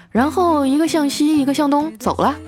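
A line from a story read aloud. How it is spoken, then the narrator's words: Flat, calm. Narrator (Chinese): 叔叔淡淡的说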